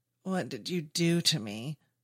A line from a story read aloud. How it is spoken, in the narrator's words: David moans, his faculties returning to him